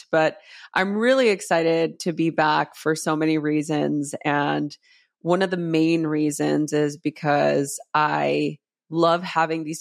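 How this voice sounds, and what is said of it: Congested, stuffy voice. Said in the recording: “My voice is a little, I caught that winter... a winter congested situation”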